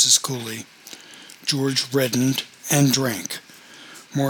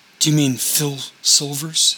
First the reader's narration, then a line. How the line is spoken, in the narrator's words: said Dominic